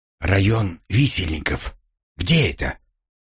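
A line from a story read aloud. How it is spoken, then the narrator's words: Whispered question. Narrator (Russian): Шепотом спросил я Оливера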